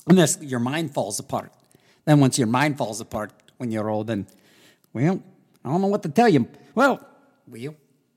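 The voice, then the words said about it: Imitates another person's voice. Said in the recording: “That was my Ronald Reagan impression.”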